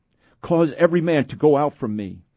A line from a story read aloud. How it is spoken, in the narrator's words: he cried